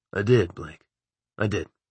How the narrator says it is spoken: he repeated softly

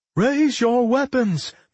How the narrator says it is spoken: Mary called out

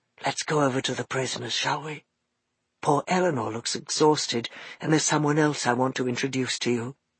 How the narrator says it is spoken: whispered Mo

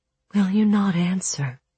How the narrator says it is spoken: Ula whispered again

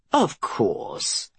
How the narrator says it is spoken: Anders replied, his tone solicitous now

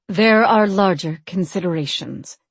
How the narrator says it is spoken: she said gravely

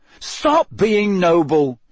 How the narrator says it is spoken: said Harry irritably

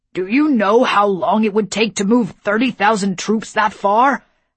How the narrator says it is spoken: Howland bellowed

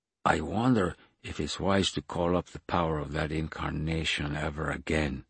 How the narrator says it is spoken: said Raoul quietly

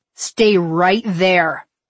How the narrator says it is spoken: I snarled at my parents

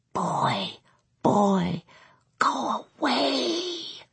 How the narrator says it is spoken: Bing whispered, his voice thin and strained with need

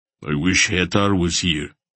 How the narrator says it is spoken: Barak grunted

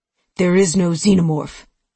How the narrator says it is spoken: Nicholson snapped

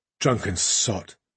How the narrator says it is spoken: she muttered

